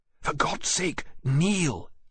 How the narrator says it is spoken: he whispered

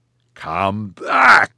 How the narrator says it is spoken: Che bellowed

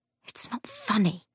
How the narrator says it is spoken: James said through his teeth

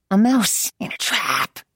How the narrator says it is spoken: hissed

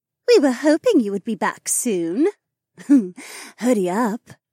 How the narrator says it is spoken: Haywan giggled

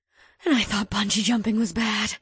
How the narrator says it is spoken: Val said as she shakily

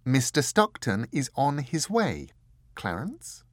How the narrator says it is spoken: she said calmly

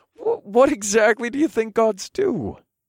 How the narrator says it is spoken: I laughed again

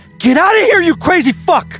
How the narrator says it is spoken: Darren screamed

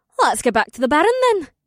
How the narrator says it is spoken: Amber said happily

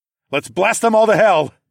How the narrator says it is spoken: I shouted

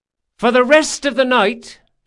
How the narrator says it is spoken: shouted

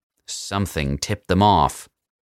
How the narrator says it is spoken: the President growled

